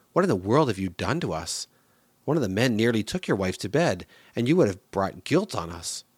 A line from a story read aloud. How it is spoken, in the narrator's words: Then Abimelech exclaimed